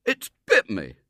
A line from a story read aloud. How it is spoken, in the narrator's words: said indignantly